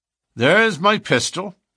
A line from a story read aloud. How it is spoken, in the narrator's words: said McMurdo coolly